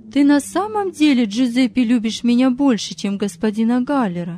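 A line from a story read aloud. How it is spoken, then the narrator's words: Plain. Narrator (Russian): спросила Мария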